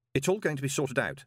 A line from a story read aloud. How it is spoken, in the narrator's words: said Moist quickly